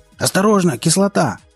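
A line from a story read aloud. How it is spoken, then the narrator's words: Yelling. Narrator (Russian): завопил кто-то из бандитов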